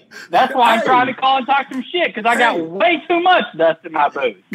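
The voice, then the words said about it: Southern country American accent. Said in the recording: “Where are you from with that accent? You from Oklahoma? You a cowboy gangster? ... Country bitch.”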